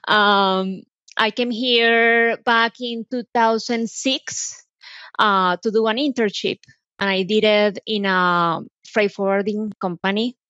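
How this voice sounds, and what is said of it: Colombian Spanish accent. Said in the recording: “I'm originally from Colombia, as you can tell by my accent.”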